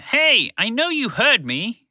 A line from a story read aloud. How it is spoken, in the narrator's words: Phoebe shouted again